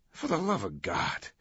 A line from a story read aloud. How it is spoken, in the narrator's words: Langdon groaned